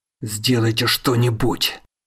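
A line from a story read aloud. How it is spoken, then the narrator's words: Hoarse rasp. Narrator (Russian): хрипит он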